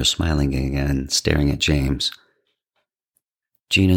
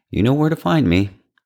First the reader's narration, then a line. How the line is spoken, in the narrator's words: the man said too brightly